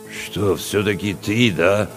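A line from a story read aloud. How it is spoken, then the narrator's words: Confused mutter. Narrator (Russian): растерянно пробурчал Чевчаридзе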